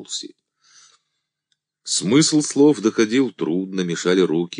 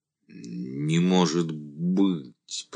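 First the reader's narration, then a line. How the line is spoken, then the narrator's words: Moaning. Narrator (Russian): простонал Андрей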